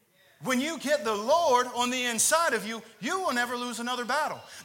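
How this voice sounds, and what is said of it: Yelling, loud preaching. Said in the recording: “I'm yelling at you guys about this”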